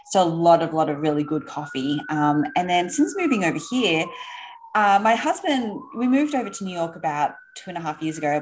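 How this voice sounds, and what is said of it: Australian accent. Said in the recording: “I don't know if you can tell from the accent, but we are from Sydney in Australia”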